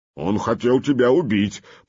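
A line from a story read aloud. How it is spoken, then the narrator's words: Deep Norse bass voice. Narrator (Russian): по-нурмански пробасил один из скандинавов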